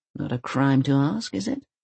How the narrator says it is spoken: Granny mumbles something that sounds like

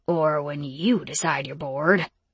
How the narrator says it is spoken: Jareth muttered beneath his breath

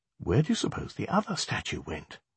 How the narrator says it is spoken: Alex leaned down and whispered to Lani and Megan

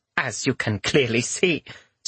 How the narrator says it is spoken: Sumiko said with a small laugh

